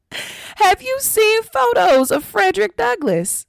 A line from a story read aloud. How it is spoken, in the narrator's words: Lin laughed